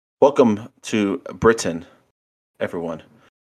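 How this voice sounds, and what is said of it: Bad put-on British accent. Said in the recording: “horrible British accent ... That is a horrible British accent ... a little bit of Christopher Walken in that”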